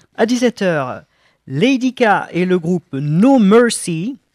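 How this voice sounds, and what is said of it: Put-on accent reading names. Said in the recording (French): “Vous avez vu cet accent que j'ai?”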